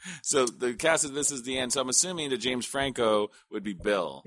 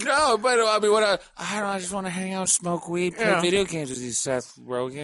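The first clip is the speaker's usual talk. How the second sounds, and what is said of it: Jay Baruchel impression. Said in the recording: “Jay Baruchel ... your impression ... It's a great impression ... Terrible.”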